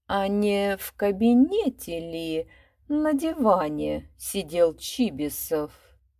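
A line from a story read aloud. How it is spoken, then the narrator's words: Slow chanting. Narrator (Russian): медленно проскандировал Шариков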